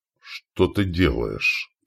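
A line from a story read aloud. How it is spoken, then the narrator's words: Hoarse wheeze. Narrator (Russian): прохрипел он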